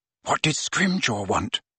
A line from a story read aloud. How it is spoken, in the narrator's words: Hermione whispered